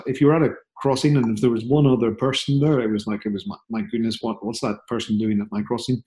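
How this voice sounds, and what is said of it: Northern Irish accent. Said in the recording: “I'm from a little town of, you know, 10,000 people on the edge of Belfast, Northern Ireland, which is why I have a slightly different, weird accent.”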